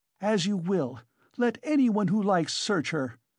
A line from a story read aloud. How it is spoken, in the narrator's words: cried Katerina Ivanovna